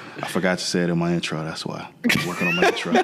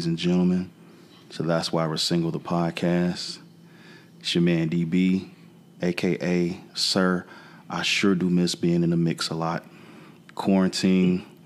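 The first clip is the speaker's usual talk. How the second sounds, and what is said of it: Deep bass smooth radio voice. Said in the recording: “where does this nigga voice go? ... because I'm leaning into the mic ... Quiet Storm ass voice ... bass nigga from Boys to Men ass voice ... Talk regular”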